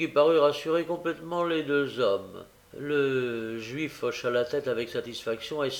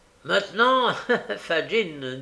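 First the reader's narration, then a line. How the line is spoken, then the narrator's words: Laughing. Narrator (French): dit Nancy en riant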